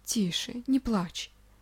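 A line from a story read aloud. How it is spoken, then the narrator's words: Soft gentle robot voice. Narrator (Russian): мягко произнес электроник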